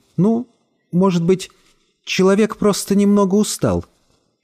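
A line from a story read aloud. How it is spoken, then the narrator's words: Hesitant voice. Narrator (Russian): говорила нерешительным голосом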